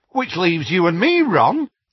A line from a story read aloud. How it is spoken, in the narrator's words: said Tonks brightly